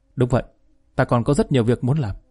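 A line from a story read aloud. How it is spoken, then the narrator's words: Soft quiet voice. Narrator (Vietnamese): Niệm Băng khẽ nói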